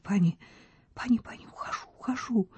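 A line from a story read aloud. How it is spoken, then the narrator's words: Whisper. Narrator (Russian): она прошептала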